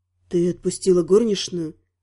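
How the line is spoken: Quiet question. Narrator (Russian): столь же тихо спросил он

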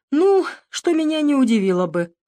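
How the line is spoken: Laughing. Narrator (Russian): рассмеялся

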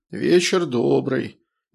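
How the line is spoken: Listless tone. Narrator (Russian): вялым тоном ответил полковник

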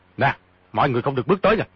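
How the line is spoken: Sharp shout. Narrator (Vietnamese): Di Tiểu Bảo quát

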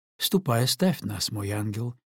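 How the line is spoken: Plain. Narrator (Russian): ответила маркиза

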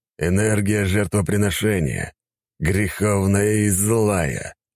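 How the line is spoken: Growling. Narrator (Russian): прорычал я

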